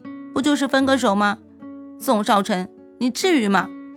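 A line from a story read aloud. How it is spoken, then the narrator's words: Choked tearful. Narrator (Chinese): 哭了好久，才哽咽着说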